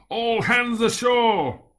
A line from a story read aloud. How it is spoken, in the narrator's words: yelled at the top of my voice